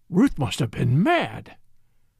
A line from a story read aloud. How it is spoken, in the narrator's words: muttered Van Alden